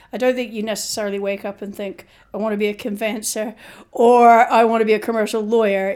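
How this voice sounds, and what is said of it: Hard-to-place accent. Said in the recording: “a bit of a challenge to place that accent ... difficult to place”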